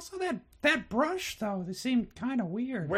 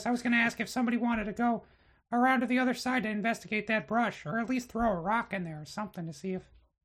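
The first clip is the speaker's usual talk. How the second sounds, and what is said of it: High-pitched Mickey Mouse cartoon voice. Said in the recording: “in my Mickey Mouse voice”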